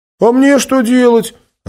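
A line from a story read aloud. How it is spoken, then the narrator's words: Offended shout. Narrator (Russian): обиженно крикнул вслед Лас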